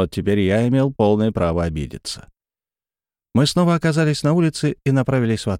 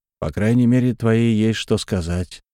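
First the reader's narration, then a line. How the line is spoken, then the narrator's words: Through gritted teeth. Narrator (Russian): процедил я сквозь зубы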